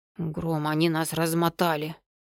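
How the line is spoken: Wheezing. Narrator (Russian): просипел Шарх

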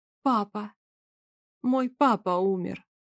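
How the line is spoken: Barely controlled mumble. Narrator (Russian): Пробормотала она, едва контролируя свой голос

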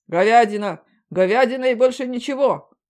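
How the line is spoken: Many voices shouting. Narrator (Russian): закричали сразу несколько мужиков и баб

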